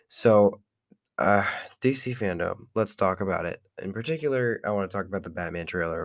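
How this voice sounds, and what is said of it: Strained, slightly off-sounding voice. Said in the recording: “I sound a little bit weird ... merciless on my voice ... screaming at the top of my lungs ... my voice sounds a little bit off”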